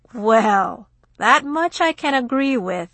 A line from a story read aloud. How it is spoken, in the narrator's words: Cornell chuckled